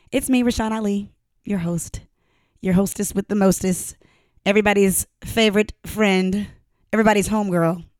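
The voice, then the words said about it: Raspy, hoarse voice. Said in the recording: “my voice is a little raspy today... forgive my hoarseness”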